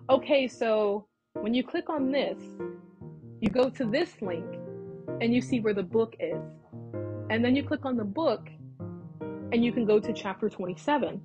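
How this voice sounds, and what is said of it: Soft, slow, deliberate speaking voice. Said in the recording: “I intentionally talked slow, you know, and my voice was kind of soft too ... Like, that's how I was talking ... my voice was softer”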